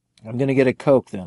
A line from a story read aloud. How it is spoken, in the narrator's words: I said